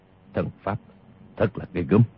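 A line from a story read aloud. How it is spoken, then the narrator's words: Muttering. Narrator (Vietnamese): Tiêu Phong lẩm bẩm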